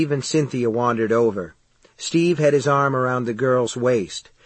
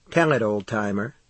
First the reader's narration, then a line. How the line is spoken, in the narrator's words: Cynthia said softly